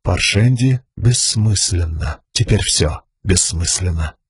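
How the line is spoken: Whisper. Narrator (Russian): прошептал Зет

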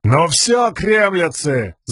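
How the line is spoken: Yelling. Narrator (Russian): заорал Газ

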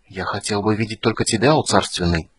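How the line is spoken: Whispered through a crack. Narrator (Russian): прошептал в щелку драконит

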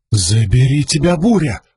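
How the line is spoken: Startled exclamation. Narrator (Russian): воскликнул Каладин

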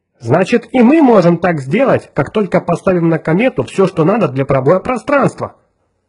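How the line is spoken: Triumphant exclamation. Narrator (Russian): победно воскликнул андроид

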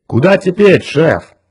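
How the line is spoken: Distant shout. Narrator (Russian): крикнул Грей Гарсон из-за пульта управления

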